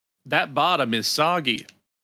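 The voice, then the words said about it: Paul Hollywood impression. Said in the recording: “perfecting his Paul Hollywood imitation”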